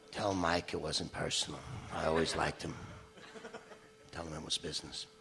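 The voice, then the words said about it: Imitates another person's voice. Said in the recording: “That was my Abe Vigoda impression.”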